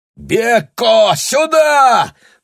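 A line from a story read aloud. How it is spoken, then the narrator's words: Howling cry. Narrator (Russian): взвыл Аттилий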